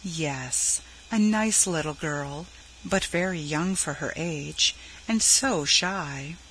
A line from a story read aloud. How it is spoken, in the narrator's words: Shepherd gently